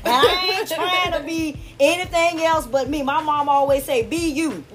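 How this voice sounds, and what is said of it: Southern American accent. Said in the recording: “I have the southern accent because, honey, I am country.”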